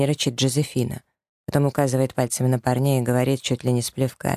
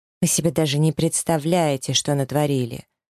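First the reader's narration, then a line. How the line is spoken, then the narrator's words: Very displeased. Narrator (Russian): Арис тоже произносит крайне недовольным тоном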